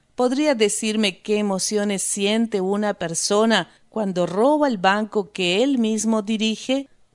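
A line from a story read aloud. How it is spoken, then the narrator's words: Plain question. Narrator (Spanish): preguntó Rost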